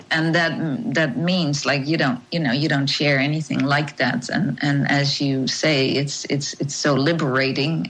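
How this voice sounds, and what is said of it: Dutch accent. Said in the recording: “I'm Dutch, so you probably have heard that on my accent.”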